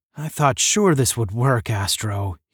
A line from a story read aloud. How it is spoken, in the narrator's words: he sighed